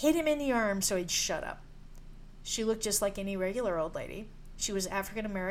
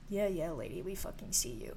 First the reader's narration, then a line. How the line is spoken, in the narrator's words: My husband muttered